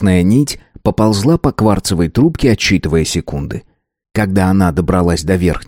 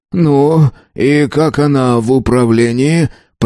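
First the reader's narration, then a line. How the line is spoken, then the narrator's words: Wheezed. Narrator (Russian): прохрипел он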